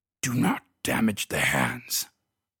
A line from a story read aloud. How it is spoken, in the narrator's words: growled the inhuman creature